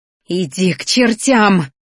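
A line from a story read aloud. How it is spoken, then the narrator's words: Hissing. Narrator (Russian): зашипела Ди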